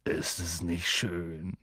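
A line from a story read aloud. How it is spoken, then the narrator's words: Murmured. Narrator (German): murmelte Hagrid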